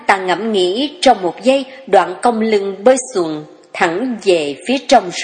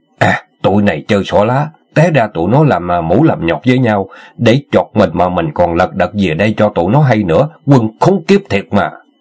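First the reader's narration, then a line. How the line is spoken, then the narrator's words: Teeth-gritted mutter. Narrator (Vietnamese): nghiến răng lẩm bẩm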